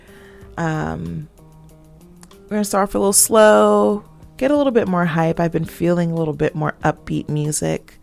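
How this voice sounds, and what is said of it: Stuffy, congested voice. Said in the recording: “I sound a little stuffy. ... My allergies will not let me live.”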